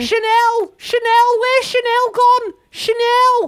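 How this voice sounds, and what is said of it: Shouted put-on Liverpool accent. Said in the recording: “She from Liverpool or something? Why are you putting on that accent?”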